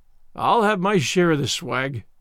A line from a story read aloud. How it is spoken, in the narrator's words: he growled